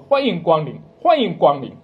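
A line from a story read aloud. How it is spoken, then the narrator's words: Calling out. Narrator (Chinese): 我们每天都喊着说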